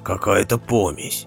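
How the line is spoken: Muttered. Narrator (Russian): пробормотал Родди

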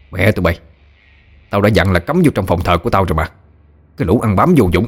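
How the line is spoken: Furious shout. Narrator (Vietnamese): Năm Cò bực tức quát vào mặt gấm

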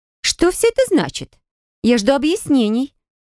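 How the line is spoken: High-pitched voice. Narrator (Russian): высоким голосом проговорила она

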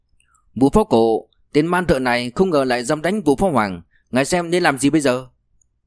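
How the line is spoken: Loud urgent. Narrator (Vietnamese): Thủ hạ của Hoàng Phú Quý lập tức lớn tiếng nói

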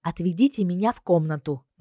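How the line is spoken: Asking. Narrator (Russian): попросила

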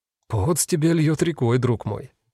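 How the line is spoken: Soft remark. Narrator (Russian): мягко заметил он

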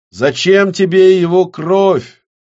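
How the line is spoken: Shouted again. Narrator (Russian): снова крикнул Кирилл

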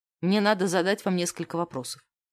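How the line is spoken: Dry. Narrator (Russian): сказал сухо

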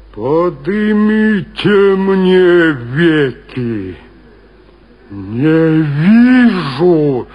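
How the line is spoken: Deep subterranean voice. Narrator (Russian): сказал подземным голосом Вий

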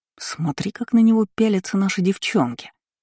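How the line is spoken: Slightly hurt whisper. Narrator (Russian): шепнул Кайл, как ей показалось немного обиженно

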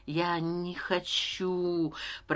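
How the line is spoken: Whisper. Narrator (Russian): прошептал я

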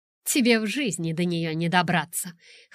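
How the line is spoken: Scoffing reply. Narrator (Russian): хмыкнула я в ответ

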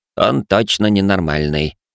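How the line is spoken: Grumbling. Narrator (Russian): проворчал Каль

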